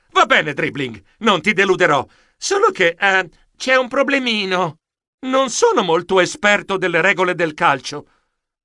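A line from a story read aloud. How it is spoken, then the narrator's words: Exclamation. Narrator (Italian): Io esclamai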